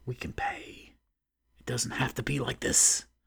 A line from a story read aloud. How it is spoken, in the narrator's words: He hissed